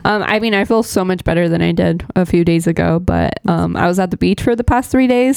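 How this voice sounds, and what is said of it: Unusually low voice. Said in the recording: “I may sound a little different because I've been having crazy allergies... that's why I sound different. That's why I sound like, you know, very low.”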